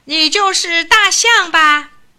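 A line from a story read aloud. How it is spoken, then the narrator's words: Arrogant straining shout, little mouse. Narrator (Chinese): 小老鼠用尽全身的力气，傲慢地喊了起来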